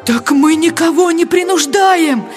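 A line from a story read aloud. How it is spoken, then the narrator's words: Pleading. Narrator (Russian): взмолился голос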